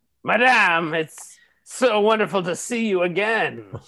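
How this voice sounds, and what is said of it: Sudden put-on accent. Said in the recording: “Where'd that accent come from?”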